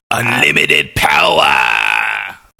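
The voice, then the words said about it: Bad impression of a villain. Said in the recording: “that's a bad impression of you-know-who.”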